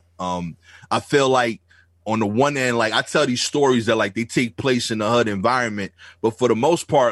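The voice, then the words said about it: Thick Brooklyn accent. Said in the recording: “my thick Brooklyn accent”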